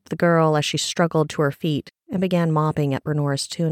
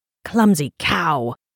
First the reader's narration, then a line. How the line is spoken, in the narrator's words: a voice spat